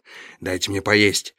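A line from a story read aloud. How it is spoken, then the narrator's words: Hoarse. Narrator (Russian): хрипло ответил Хоуп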